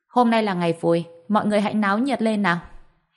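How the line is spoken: Cheerful shout to guests. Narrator (Vietnamese): trên mặt vẫn giữ được nụ cười, hét lên với tất cả quan khách, nói

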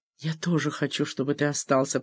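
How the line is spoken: Whisper. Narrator (Russian): прошептала Джоанна

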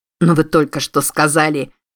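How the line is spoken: Irritated. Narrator (Russian): раздраженно начал

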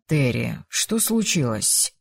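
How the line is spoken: Soft, gentle question. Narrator (Russian): мягко спросил он

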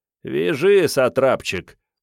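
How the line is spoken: Mocking. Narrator (Russian): насмешливо сказал Иван

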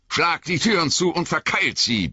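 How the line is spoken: Roaring. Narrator (German): brüllte Aragorn

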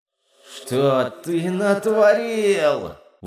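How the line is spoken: Distant inner howl. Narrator (Russian): взвыл братишка где-то на задворках сознания

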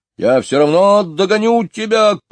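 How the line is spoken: Shouting. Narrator (Russian): кричал он

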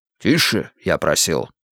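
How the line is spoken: Commanding. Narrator (Russian): напомнил Грейтхаус повелительным голосом

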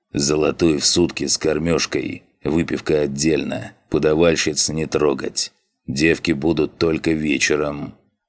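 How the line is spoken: Growling. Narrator (Russian): прорычал он

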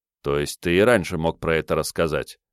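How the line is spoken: Calm question. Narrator (Russian): спокойно спросил

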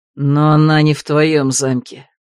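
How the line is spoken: Through gritted teeth. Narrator (Russian): процедил Влад

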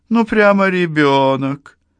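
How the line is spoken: Laughing, easing tension. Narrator (Russian): Тадесина, снимая напряжение, рассмеялась

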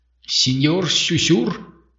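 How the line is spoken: Trembling voice. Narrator (Russian): дрогнувшим голосом откликнул один из них

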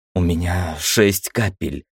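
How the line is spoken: Hoarse mutter. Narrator (Russian): хрипло пробормотала Ира

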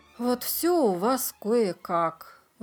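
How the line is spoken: Sighing. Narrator (Russian): вздохнула Клео

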